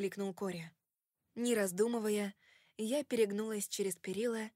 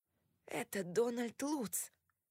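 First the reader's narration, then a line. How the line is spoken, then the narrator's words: Excited starstruck whisper. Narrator (Russian): прошептал Кори мне на ухо, как фанат, одержимый знаменитостью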